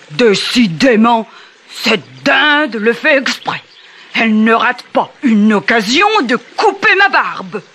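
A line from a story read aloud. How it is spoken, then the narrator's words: Grumbling gnome. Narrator (French): bougonna le gnome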